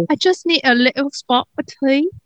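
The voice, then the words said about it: Imitation British accent. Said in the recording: “I have to work on my British accent ... It's not good ... that's leaps and bounds better than it used to be. She used to sound like she was from India.”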